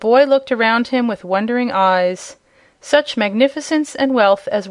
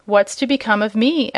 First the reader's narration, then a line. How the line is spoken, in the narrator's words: asked the horse uneasily